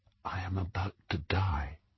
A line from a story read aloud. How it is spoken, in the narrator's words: whispered